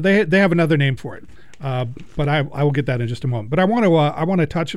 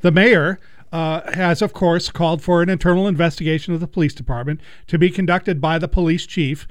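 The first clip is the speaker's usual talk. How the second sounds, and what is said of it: Sarcastic tone. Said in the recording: “hear the sarcasm in my voice”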